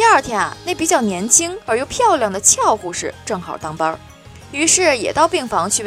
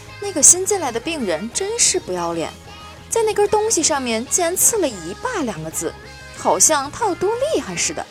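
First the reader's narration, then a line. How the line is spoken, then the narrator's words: Whispering. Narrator (Chinese): 一个胖护士跟另一个护士悄声说道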